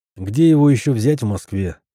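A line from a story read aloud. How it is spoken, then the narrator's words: Joyless snort. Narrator (Russian): невесело хмыкнул я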